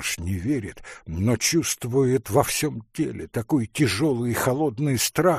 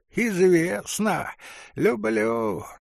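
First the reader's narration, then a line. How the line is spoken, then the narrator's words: Hoarse giggling. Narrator (Russian): говорит прохожий, сипло хихикая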